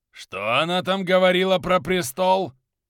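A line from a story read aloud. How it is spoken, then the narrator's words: Growl. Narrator (Russian): рыкнул Кёник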